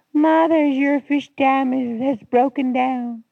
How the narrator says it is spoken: shouted gleefully

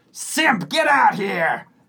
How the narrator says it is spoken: yells

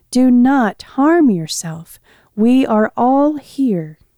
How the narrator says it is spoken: Paul called out in a loud voice

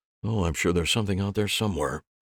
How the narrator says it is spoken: Dave mumbled

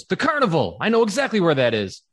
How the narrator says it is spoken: Fink snaps out of a trance and just goes

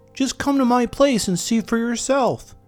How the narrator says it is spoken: begged Bree

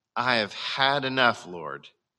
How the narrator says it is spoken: he said

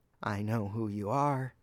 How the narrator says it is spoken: she croaked

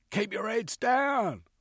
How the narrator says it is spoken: one shouted

